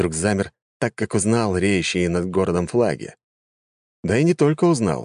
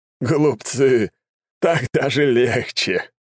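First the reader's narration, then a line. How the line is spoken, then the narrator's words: Chuckling. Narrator (Russian): хохотнул Сизаран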